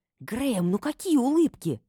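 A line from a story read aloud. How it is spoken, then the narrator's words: Hissing. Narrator (Russian): зашипела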